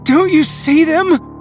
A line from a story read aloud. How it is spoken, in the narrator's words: I gasped in panic